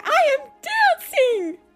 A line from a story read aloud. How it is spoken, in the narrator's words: Gerald cried